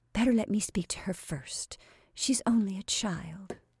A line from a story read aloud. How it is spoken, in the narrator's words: begged in a whisper